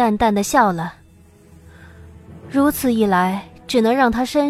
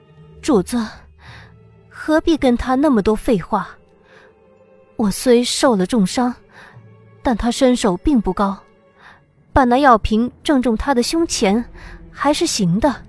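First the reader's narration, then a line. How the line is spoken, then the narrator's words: Breathless, wounded. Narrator (Chinese): 他喘息几口，这才道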